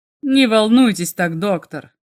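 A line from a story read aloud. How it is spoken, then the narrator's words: Gloomy remark. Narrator (Russian): мрачно заметил Уолхэм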